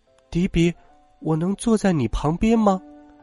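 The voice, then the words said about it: Quiet, soft-spoken question. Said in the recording (Chinese): “小声问”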